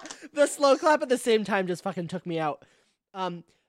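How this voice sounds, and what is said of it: Usual voice. Nothing is said of it.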